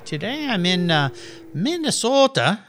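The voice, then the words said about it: Slight put-on Minnesota accent. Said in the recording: “I'm going to have a little accent when I say that”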